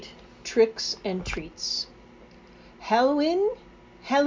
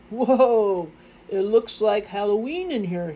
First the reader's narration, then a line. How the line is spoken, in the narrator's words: he exclaimed